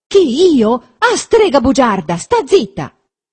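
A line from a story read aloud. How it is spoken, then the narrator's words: Angry shout. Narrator (Italian): gridò Renzo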